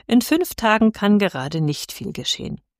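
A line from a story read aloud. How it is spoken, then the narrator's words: Priest, laughing. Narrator (German): sagte der Pfarrer lachend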